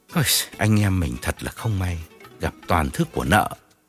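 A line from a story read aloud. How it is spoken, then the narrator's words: Sighing, consoling. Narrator (Vietnamese): Điển thở dài an ủi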